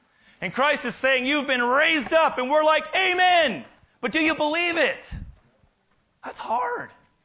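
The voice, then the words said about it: Excited yelling. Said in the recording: “I'm not yelling at you. I'm excited because I'm yelling at me.”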